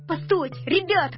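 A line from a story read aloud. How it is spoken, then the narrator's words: Shouting. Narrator (Russian): кричал Мишка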